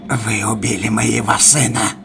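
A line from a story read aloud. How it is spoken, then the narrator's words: Growl. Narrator (Russian): прорычал психиатр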